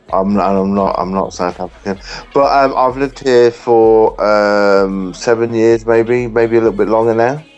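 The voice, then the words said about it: English accent. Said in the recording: “As you can probably tell by my accent, I'm English.”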